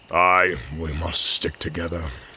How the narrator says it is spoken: growled Ulrich

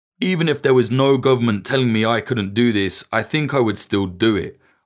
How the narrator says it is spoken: Ivan says

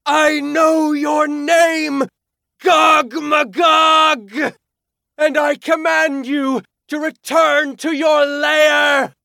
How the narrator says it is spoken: It screamed

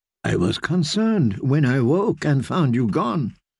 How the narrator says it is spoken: murmured Lady Merryweather

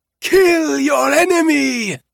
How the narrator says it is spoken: it was Kellen who shouted it

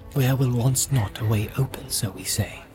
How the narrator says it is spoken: he whispered

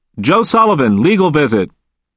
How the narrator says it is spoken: the officer called out

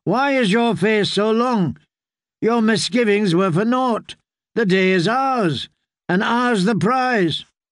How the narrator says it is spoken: he called out

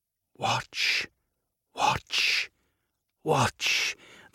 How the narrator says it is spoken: the grandmothers whisper, and their voices become a chorus

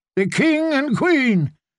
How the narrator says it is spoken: they cried

